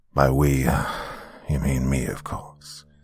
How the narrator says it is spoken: Theo sighed in frustration, said

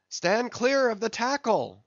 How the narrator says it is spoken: cried a voice like the bursting of a rocket

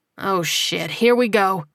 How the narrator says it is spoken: Ernest muttered

